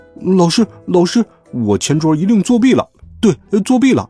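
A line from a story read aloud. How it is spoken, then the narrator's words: Loud bawling yell. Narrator (Chinese): 老肥哇哇大叫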